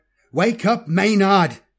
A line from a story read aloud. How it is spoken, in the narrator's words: Kaladin shouted